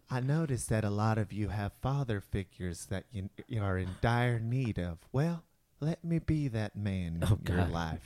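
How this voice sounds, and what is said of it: Creepy Mr. Rogers impression. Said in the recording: “Mr. Rogers ... Yes, boys and girls. I'm in no way creepy at all ... I came from a time when this wasn't a creepy voice.”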